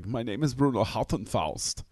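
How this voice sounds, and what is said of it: Terrible Euro trash accent, Val Kilmer. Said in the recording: “he's doing this terrible like Euro trash accent sort of thing”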